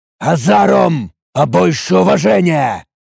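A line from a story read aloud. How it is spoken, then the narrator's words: Angry growl. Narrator (Russian): рыкнул я зло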